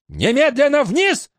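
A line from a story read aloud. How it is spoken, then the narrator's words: Furious shout. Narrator (Russian): закричала она, багровея от злости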